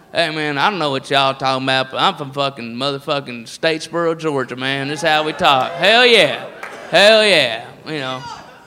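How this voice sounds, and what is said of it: Put-on redneck Southern accent. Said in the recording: “the redneck voice is all over the place. It's all, and it's not just the South”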